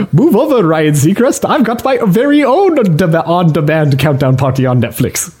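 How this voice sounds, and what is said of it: Cartoon lemur character voice. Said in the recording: “the accent ... It wasn't bad. ... You're imitating a cartoon lemur.”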